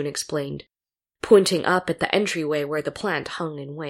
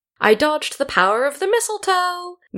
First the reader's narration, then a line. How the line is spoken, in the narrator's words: laughed, and it was still bright